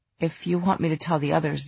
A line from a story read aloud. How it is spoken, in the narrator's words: Julian said hoarsely